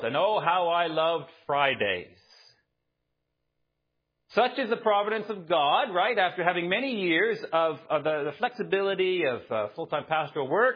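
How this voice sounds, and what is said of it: Canadian accent. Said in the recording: “my accent, no, it's not Northern Ireland or South Africa or Australia. When I lived in Canada”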